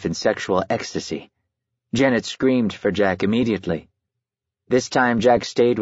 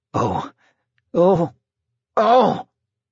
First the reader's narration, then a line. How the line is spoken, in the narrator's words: a man moaning